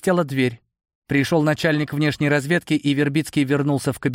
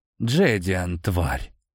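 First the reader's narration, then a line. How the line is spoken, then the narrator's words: Shocked exhale. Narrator (Russian): выдохнул, осознав, что именно сделал наследник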